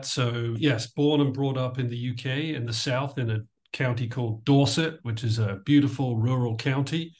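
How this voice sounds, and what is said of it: British accent, slightly mid-Atlantic. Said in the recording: “I love your accent ... presumably a Brit ... I have a little bit of a mid-Atlantic accent now”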